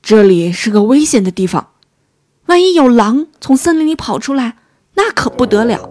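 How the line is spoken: Angry shouting. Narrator (Chinese): 非常生气，大声嚷道

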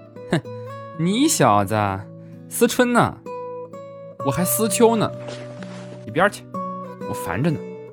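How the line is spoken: Mischievous grin. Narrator (Chinese): 一脸坏笑的说

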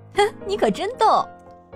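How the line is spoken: Laughing. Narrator (Chinese): 多姿笑着说

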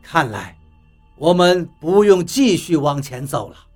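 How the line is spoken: Sighing. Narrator (Chinese): 比利叹了一口气，道

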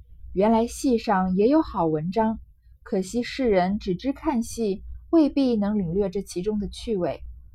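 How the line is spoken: Inner thought, sighing. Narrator (Chinese): 不觉点头自叹，心下自思道

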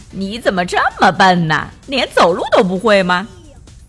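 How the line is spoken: Happy, laughing. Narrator (Chinese): 看到孩子们摔跤，他会开心的笑着说

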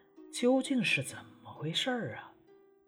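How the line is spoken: Gentle question. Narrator (Chinese): 母亲温柔地询问他

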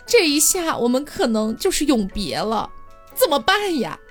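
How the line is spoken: Sobbing brokenly. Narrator (Chinese): 七公子也是哭的不成人样了啊，非常的舍不得

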